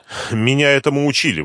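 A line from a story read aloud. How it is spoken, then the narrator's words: Breathy exhale. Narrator (Russian): выдохнула она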